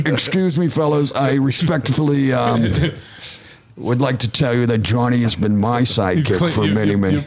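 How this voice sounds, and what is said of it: Imitates another person's voice. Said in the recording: “He's doing his McCogan impression.”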